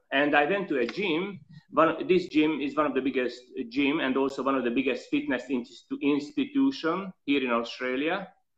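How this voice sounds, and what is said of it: Slight non-native English accent. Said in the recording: “I have a tiny bit of accent, maybe everyone noticed I'm not a native speaker, not a true blue Aussie”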